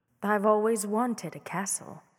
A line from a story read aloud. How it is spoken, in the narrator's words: said sweetly